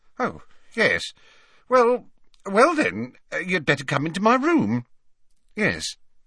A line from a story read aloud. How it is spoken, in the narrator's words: she said feebly